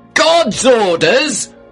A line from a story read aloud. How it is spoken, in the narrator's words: I shouted, furious